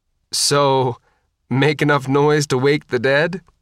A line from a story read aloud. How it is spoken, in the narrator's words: Fontana said, chuckling